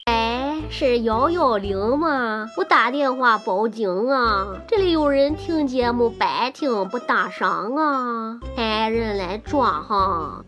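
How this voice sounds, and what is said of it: Put-on unidentified regional accent. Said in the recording (Chinese): “别问我这是哪里的口音，因为我也不知道”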